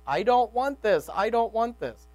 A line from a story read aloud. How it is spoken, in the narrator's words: He was now fully alert, yelling